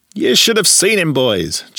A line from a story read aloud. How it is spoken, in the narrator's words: Chili cried